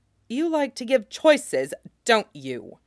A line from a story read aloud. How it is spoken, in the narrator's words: Jamie said savagely